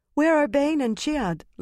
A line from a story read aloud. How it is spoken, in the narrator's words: Lasiel asked anxiously